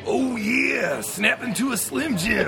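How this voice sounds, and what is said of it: Macho Man Randy Savage impression. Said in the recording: “can you do an impression of Macho Man Randy Savage”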